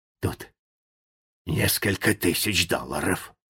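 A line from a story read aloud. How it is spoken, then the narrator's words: Whisper. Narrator (Russian): Наконец Джо прошептал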